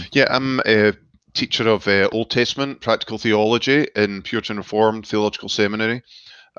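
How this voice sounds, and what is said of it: Glasgow Scottish accent. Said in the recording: “Scottish accent ... I was born and brought up in Glasgow ... it's not quite as posh as the Edinburgh accent”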